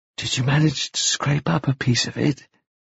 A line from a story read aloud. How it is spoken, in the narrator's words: whispered